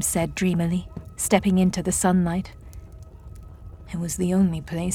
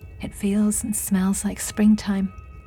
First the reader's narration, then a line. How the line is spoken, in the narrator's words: she sighed